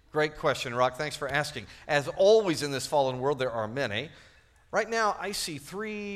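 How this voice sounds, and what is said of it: Usual voice. Nothing is said of it.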